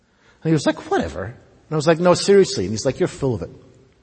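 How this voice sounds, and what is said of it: Scottish accent. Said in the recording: “Since I came to the United States and became a citizen, I have not gone back to Scotland very often ... people are going to criticize my accent”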